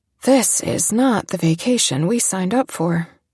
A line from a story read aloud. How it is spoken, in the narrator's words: Frankie finally said in an uneven voice